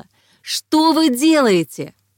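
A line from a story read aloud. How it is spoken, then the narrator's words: Woman shouting. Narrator (Russian): одна женщина кричала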